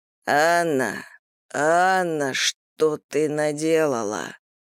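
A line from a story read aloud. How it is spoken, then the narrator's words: Moaning. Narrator (Russian): простонал он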